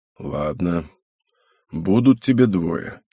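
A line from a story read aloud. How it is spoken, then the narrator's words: Uncertain. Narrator (Russian): как-то неуверенно произнес Антипов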